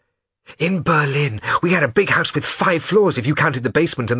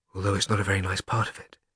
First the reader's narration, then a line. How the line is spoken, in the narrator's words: said Shmuel quietly